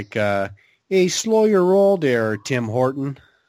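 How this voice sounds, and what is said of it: Bad mock Canadian accent. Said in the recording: “I was going to do a bad Canadian accent and mock them a little”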